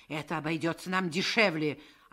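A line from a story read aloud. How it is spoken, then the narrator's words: Snapping retort. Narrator (Russian): огрызнулся управляющий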